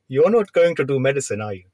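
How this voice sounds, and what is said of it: Imitates another person's accent. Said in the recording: “I can't believe you're doing the accent as well.”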